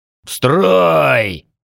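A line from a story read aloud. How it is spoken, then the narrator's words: Barked. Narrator (Russian): рявкнул орк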